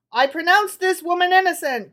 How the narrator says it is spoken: cried the high priest

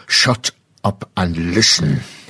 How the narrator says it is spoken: he growled

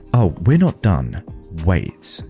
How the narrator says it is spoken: said firmly

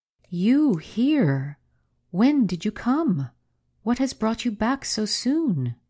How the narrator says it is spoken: exclaiming

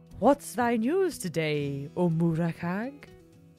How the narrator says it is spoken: The cat purred

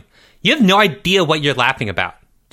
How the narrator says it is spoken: snapped

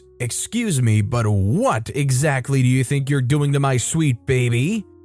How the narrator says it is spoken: She very angrily says

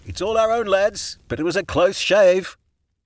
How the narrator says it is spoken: Juniper shouted

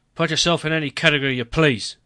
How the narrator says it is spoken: he grumbled

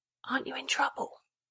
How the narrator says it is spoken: an Edmund Leighton print, and whispered

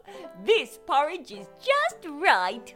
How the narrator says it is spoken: she said happily

